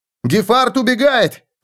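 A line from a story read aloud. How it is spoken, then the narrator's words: Shout. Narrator (Russian): крикнул он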